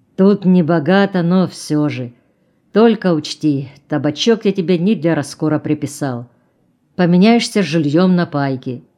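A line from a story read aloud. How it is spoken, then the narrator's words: Deep booming bass. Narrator (Russian): басил он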